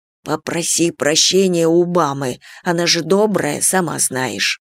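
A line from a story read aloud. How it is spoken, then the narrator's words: Quiet instructing. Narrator (Russian): тихо наставлял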